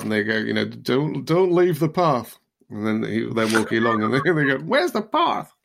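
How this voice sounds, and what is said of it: Mixed Yorkshire and American accent. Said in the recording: “Where do they come from with that accent? ... They're American. I was using all my full gamut of accents, Yorkshire and American, all in one little, and a bit of werewolf. That was werewolf. ... It was my Darlington accent.”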